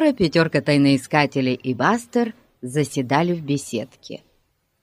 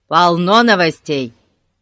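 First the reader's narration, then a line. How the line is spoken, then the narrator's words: Shouting. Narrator (Russian): крикнул Ларри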